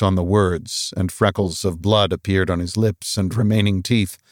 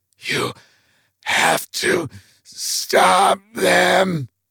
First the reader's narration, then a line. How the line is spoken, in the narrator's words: Bob hissed at Mike